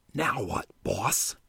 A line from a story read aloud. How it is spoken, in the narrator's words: Juke whispered